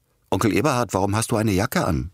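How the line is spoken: Called out. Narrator (German): rief

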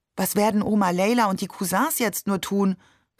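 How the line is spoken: Plain. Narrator (German): fragte ich

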